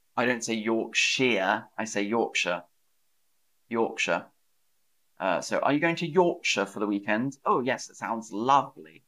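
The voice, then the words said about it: Posh English accent. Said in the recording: “My accent is considered a bit posh. So posh English”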